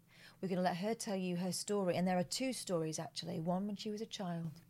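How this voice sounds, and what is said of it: Exaggerated teasing tantalising voice. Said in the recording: “that annoying voice ... I was doing this voice ... This is my tantalising voice”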